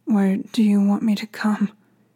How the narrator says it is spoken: he said in a trembling voice

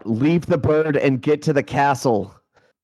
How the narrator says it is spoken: shout

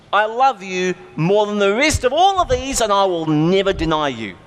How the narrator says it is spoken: Peter said at the top of his lungs

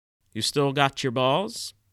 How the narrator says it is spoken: asked Monfort

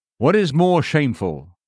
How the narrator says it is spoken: asks Seneca

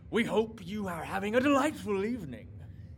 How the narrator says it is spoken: A painted sign of a sad clown elf wearing jester's hat springs to life and exclaims

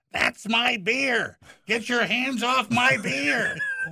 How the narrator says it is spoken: Stepdad's mother flew up from the table yelling

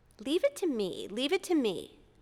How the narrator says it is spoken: She exclaimed

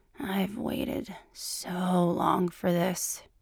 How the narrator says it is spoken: said, his voice drenched in lust

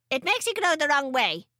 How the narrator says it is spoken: snapped

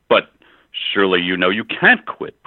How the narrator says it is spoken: protested the laughing man

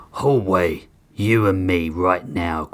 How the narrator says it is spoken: Grissom growled

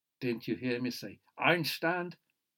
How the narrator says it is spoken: The younger one shouted

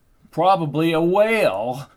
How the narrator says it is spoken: she laughed

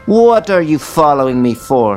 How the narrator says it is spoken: was shouting now

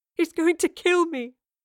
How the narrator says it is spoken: the young man sobbed

